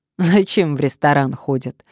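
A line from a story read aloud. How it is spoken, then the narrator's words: Laughing. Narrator (Russian): рассмеялась Надежда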